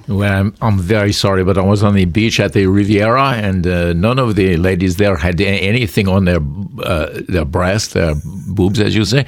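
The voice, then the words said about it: Put-on French accent. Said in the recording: “There goes the accent. You know, you start in France and you just begin to go back to South LA.”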